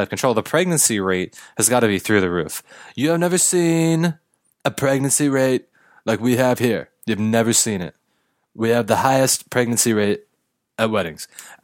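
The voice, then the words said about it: Donald Trump impression. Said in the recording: “I just had to do it. Trump. ... I just had to do it in a Trump voice.”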